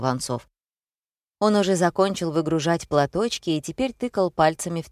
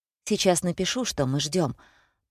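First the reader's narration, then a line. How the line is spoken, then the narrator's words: Muttered. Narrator (Russian): пробормотал он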